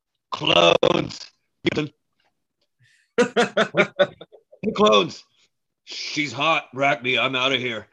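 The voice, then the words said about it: Imitates another person's voice. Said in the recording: “that's my very good Jim Rome impression”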